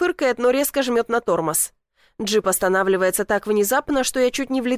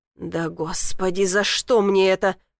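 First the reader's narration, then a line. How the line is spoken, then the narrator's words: Mutter. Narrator (Russian): бормочет он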